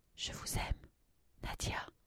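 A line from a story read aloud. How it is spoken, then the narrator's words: Soft, half-voiced. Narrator (French): dis-je à mi-voix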